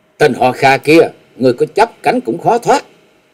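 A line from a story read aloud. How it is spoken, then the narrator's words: Low sharp shout. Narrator (Vietnamese): Nàng khẽ quát lên một tiếng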